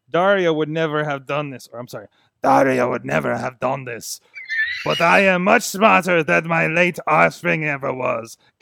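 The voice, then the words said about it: Imitation of a character's voice. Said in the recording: “You do a really good Papa Cueto voice. ... That's probably your best impression”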